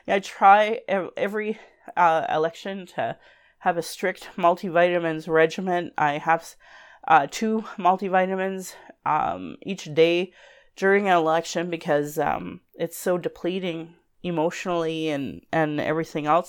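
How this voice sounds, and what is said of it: Congested voice from a cold. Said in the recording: “I'm sure you can hear I have a cold.”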